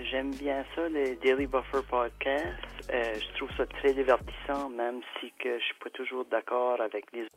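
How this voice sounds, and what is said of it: New Brunswick French accent. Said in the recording (French): “Les gens du Nouveau-Brunswick, ils ont un accent... Ils ont un accent de paysan attachant”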